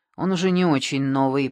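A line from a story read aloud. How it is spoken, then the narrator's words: Grumbling. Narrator (Russian): проворчал Шамбамбукли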